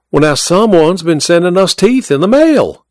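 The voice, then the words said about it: Thick Georgia Southern accent. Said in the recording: “she spoke in her thick Georgia accent”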